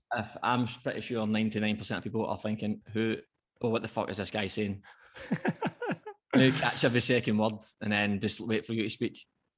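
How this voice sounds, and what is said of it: Strong hard-to-understand accent. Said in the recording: “she understood my accent fine ... If anyone is struggling to understand ... at any point”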